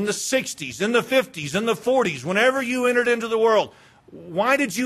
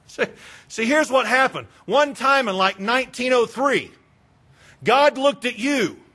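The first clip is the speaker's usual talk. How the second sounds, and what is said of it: Sarcastic tone. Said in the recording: “That was sarcasm,”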